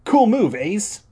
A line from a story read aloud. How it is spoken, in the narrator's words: Danny exclaimed